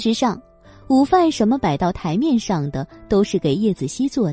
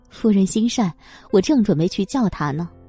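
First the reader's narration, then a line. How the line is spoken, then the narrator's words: Laughing. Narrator (Chinese): 佣人一听，立即笑了起来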